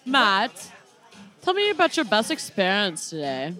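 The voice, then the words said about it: Weird put-on accent. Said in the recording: “What is that weird accent?”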